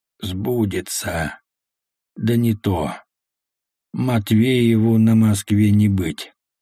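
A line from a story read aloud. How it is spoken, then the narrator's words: Gloomy. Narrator (Russian): Хованский мрачно сказал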